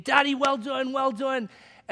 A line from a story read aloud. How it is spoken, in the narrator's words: yelling